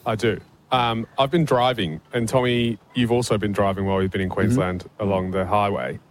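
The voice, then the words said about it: English accent. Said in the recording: “hails originally from England. That's why his voice sounds a bit funny.”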